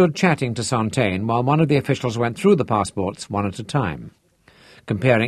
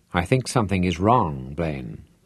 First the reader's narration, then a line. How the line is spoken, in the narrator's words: Santaine said quietly